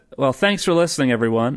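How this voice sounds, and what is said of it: Put-on American accent. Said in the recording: “do you want to use an American accent for the rest of the podcast?”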